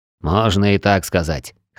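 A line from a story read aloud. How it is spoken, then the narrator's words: Smirking snort. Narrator (Russian): хмыкнул танк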